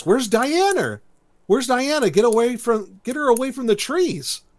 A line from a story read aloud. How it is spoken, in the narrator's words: the girl yells